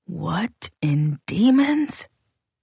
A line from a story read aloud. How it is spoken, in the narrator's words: murmured Datennay Canru